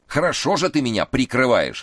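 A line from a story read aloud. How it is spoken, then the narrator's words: Angry bark. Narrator (Russian): рявкнул на него Эраст Петрович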